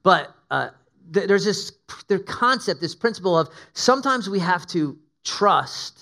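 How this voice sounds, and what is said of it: Usual voice. Nothing is said of it.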